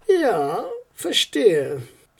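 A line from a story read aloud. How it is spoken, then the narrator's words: Sigh into phone. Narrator (German): seufzte in den Hörer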